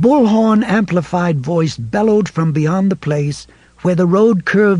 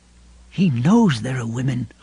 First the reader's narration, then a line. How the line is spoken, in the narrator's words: Lois murmured